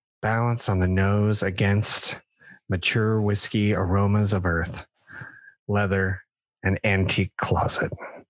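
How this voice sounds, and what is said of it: Sleepy, drowsy reading voice. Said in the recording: “in my best sleepy voice.”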